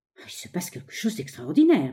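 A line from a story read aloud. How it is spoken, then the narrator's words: Murmuring. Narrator (French): murmura-t-elle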